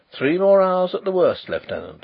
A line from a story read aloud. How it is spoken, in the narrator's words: said Carrados cheerfully